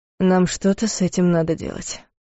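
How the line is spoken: Muffled, hollow voice. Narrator (Russian): произнес глухо

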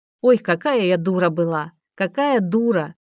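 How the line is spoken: Cheerful, relieved repetition. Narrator (Russian): весело повторяла, словно освобождаясь

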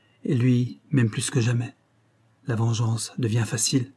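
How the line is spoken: Murmuring. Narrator (French): murmura-t-elle

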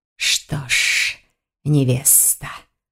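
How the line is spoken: Hissing. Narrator (Russian): прошипел жених

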